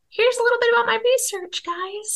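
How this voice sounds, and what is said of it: Playful funny put-on voice. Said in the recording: “Sorry, I'm doing funny voices.”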